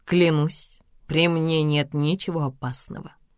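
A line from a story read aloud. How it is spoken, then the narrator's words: Mocking emphasis. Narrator (Russian): насмешливо подчеркивает он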